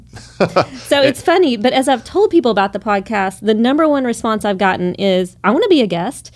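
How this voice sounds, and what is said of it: Small-town Arkansas Southern accent. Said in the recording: “If small town Arkansas is your favorite accent, keep listening.”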